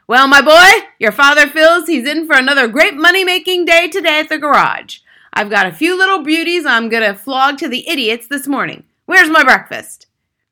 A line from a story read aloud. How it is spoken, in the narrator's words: he shouted